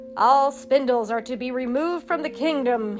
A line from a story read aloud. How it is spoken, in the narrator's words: he roared